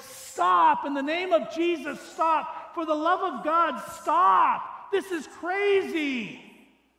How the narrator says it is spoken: shout and scream as loud as voice

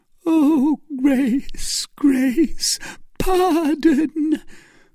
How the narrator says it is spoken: cried the wretch

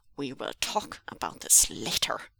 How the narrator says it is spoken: hissed

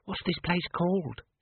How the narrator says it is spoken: she whispered

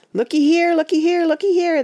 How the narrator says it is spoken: they cried

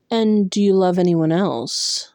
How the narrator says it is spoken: Tamlin said through clenched teeth

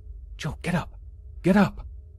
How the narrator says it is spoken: I violently whispered

